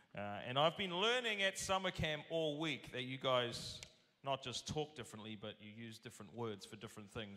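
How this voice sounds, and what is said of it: Speaks with a foreign accent. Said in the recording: “I apologize in advance for the accent. ... I don't think I have an accent until I get out of my country and realize I do.”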